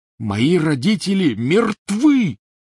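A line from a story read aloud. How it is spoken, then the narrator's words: Roaring. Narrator (Russian): взревел Гарри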